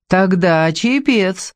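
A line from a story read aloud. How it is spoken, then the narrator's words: Cheerful conclusion. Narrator (Russian): заключил Ваня весело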